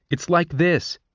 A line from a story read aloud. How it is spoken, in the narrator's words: said Sejanus, his voice rising with emotion